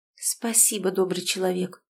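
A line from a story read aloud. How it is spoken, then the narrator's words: Mumbled. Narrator (Russian): пробормотала Тоня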